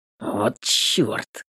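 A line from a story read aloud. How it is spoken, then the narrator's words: Muttered under breath. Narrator (Russian): бормочет себе под нос Паша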